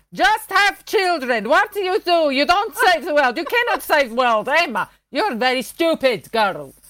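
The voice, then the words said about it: Weak put-on Greek Cypriot accent. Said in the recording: “that's not a very good Greek Cypriot accent”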